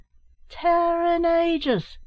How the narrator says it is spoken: yelled Larry

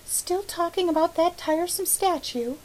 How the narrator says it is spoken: she sighed again

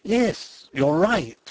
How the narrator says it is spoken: exclaimed Fritz, his face brightening

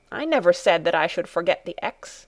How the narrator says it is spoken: said crossly

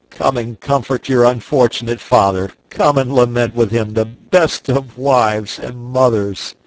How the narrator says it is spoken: cried I

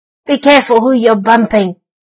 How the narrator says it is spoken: snarled the rat

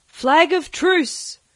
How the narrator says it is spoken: cried Silver

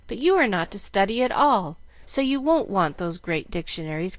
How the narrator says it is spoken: cried Jill

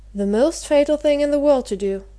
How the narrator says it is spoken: exclaimed Bryce

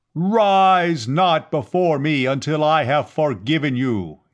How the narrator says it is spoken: Yat-Zar thundered

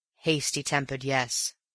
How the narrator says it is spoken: he said

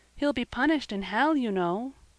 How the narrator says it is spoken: said Peter timidly

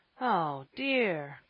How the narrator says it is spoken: groaned Ben

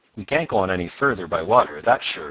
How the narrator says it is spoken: said Tom

